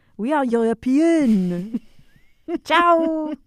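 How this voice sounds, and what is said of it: Put-on French-Italian European accent. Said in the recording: “a very distinct accent from somewhere in Europe ... it's sort of like a French-Italian hybrid”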